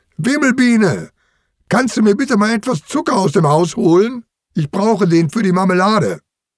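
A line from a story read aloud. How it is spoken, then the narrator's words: Calling out. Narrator (German): Lissy ruft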